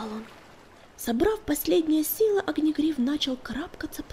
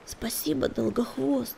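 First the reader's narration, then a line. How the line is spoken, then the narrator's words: Hoarse rasp. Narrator (Russian): прохрипел он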